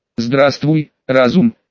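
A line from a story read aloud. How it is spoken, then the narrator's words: Uncertain speech. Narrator (Russian): неуверенно произнес я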